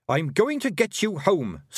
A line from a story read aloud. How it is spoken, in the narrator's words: snapped Tiffany